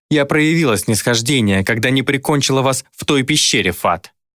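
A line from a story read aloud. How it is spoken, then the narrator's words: Barked. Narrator (Russian): рявкнула Дайна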